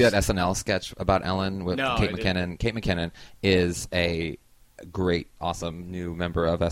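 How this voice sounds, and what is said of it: Usual voice. Nothing is said of it.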